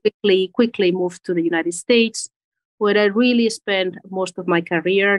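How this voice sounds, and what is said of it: Spanish accent. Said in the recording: “I'm originally from Spain... Maybe you hear from the accent.”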